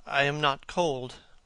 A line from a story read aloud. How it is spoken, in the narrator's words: he murmured